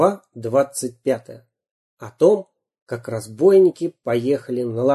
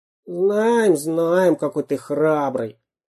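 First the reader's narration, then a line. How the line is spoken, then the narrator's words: Grumbling. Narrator (Russian): проворчал шпион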